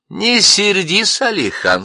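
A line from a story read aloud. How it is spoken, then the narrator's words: Angel laughing. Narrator (Russian): смеялся ангел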